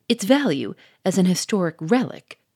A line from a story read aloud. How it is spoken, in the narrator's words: cried the millionaire in a shocked tone